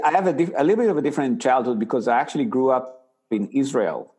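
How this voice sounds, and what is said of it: Israeli-accented English. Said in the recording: “my funny accent it's actually an israeli accent”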